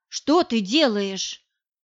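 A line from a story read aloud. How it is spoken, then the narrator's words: Angry. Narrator (Russian): Она сердито сказала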